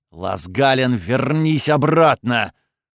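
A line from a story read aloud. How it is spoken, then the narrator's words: Muffled growl. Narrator (Russian): приглушенное рычание Кириуса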